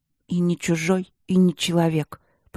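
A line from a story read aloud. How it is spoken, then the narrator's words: Confused mutter. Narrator (Russian): пробормотала Аня, сбитая с толку такой точкой зрения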